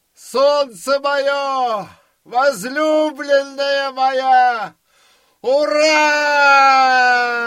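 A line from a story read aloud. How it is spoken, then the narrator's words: Tearful joyful full-voice shout. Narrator (Russian): композитор что есть силы, со слезами закричал на всю площадь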